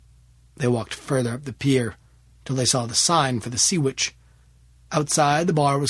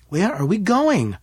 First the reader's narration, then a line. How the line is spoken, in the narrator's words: asked, nervously